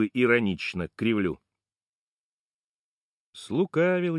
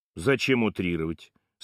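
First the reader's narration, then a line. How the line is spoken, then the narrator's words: Calm retort. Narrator (Russian): Спокойно парирует Сашок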